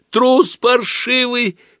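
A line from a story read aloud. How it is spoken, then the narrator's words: Tearful shout. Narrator (Russian): крикнула она плачущим голосом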